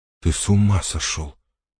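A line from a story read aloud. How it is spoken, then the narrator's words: Muttered. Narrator (Russian): пробормотала Элис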